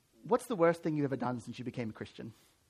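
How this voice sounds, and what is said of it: Poor put-on British accent. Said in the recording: “I'm going to do a terrible British accent here”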